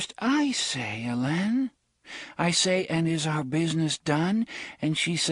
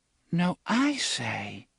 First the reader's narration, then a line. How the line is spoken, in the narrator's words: the faintly petulant voice of a little girl